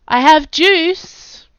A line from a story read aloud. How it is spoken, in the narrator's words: Jack called out